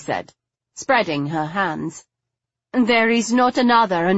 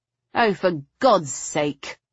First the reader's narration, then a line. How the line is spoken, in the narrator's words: I muttered